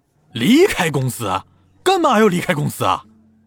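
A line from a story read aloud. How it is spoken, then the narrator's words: Startled, loud question. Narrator (Chinese): 沈恩飞一惊，大声问道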